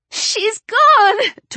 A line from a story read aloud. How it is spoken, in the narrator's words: Tori wailed